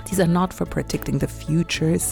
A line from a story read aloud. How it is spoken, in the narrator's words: said